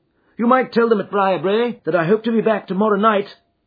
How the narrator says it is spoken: cried Phelps

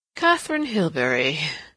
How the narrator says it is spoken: repeated with a curious little chuckle

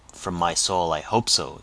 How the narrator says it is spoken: exclaimed Lawton

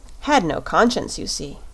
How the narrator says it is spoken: replied the shaggy man with a sigh

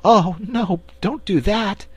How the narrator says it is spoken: pleaded Cake

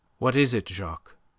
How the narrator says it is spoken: Her voice was steady now that the need for self-control seemed thrust upon her

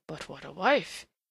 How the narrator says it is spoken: he sighed

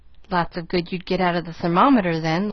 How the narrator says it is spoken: laughed the man

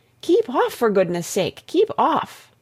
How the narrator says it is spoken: the others cried out

